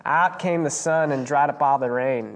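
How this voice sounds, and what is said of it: Put-on Australian-sounding accent. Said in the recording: “Sounded Australian ... To me ... Now I went Australian.”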